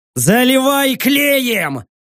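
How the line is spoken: Shouted. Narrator (Russian): крикнул я

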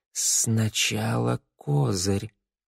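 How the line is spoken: Whisper. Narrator (Russian): прошептала она

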